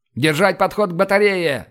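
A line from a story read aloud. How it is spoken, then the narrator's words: Open shout. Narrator (Russian): заорал я, уже ни от кого не скрываясь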